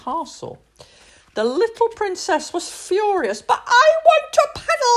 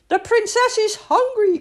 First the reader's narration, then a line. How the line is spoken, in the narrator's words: cried the maid